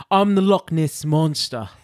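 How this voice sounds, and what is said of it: Put-on Glaswegian Scottish accent. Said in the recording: “Is that your Glaswegian accent? ... that's my Scottish accent”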